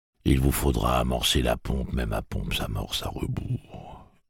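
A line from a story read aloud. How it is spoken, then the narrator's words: Gloomy tone. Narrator (French): énonça-t-il d'un ton lugubre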